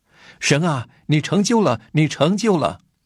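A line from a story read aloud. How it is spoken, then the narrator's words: Shouting in empty hall. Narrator (Chinese): 我独自一人在空的会堂里开始喊叫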